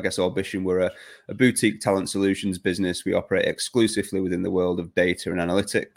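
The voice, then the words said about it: British accent. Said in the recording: “as you can tell from the accent, we are headquartered here in the UK”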